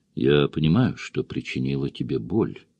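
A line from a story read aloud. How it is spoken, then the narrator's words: Quiet. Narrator (Russian): тихо сказала Сэнди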